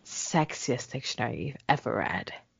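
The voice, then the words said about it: Put-on sexy voice. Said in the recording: “Is that my sexy voice? ... any voice you make is a sexy voice”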